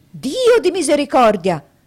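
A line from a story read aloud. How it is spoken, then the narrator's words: Doctor's exclamation. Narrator (Italian): esclamazione del dottore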